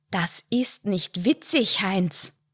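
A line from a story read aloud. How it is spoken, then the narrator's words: Hissed. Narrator (German): zischte Lydia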